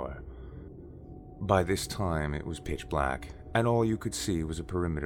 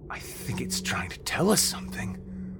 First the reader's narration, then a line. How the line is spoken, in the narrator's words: Vern said in a panicked, stricken tone